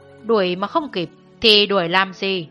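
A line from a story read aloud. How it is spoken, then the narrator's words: Cold. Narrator (Vietnamese): Thiết Khai Thành lạnh lùng bảo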